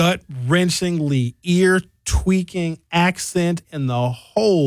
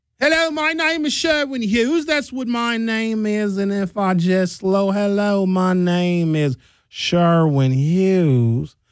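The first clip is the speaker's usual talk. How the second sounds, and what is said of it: Slowed-down put-on Southern accent. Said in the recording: “the Southern accent ... is the English accent from England, from the Great Britain area, slowed down ... if you just slow it down, it becomes a Southern accent”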